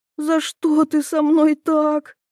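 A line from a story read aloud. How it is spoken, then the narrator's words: Silly girl sobbing. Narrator (Russian): всхлипывает дурочка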